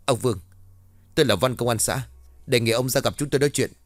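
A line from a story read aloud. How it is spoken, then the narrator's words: Hurried shout. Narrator (Vietnamese): vội quát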